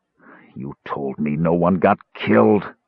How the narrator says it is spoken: Caramon said in a voice choked with anger and pain

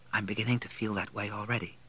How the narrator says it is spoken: said quietly

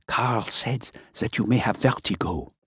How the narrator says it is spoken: he said softly

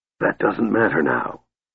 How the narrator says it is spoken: Raistlin interrupted in his shattered voice

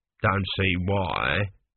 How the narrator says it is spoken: grumbled an elderly priest at the back of the crowd

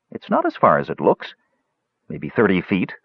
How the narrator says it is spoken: said Tanis

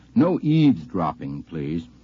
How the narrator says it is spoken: I said very sternly

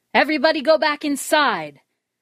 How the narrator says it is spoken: David shouted

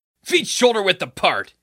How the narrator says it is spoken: he barked

